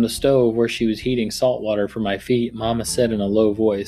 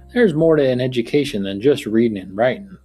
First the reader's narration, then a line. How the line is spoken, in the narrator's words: Papa said